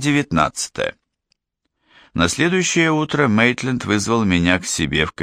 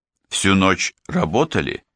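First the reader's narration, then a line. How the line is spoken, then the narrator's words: Plain. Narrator (Russian): спросил я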